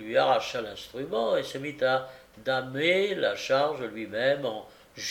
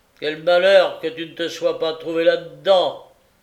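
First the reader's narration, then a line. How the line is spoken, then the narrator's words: Exclaimed. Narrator (French): s'écria le patron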